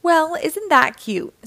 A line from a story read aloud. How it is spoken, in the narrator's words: said, laughing